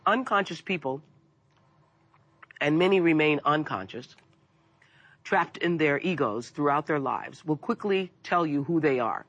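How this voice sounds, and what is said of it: Voice affected by a cold. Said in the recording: “I have a cold”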